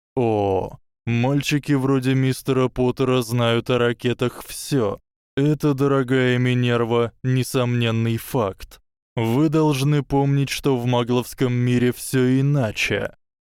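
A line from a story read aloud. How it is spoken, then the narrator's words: Drawling. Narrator (Russian): Северус протянул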